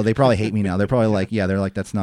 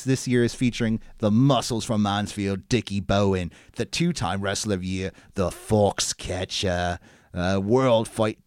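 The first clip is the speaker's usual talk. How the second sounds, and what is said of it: Unconvincing put-on British accent. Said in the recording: “that's not a British accent”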